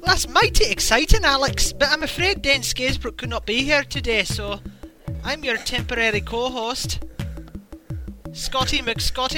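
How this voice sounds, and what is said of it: Poor put-on Scottish accent. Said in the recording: “that's a Scottish accent ... That was a Scottish accent? That's terrible. You sounded like the Lucky Charms guy ... you need more of a burr ... the phony one you put on”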